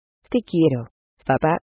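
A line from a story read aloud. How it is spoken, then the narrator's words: Plain. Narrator (Spanish): dijo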